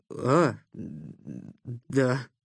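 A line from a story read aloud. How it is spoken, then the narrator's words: Flustered mumble. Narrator (Russian): промямлил застегнутый врасплох Никита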